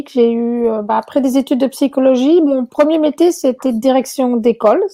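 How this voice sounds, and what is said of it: Belgian French accent. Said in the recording (French): “à mon accent, vous verrez que je ne suis pas québécoise à l'origine. Donc, euh, je, viens de Belgique.”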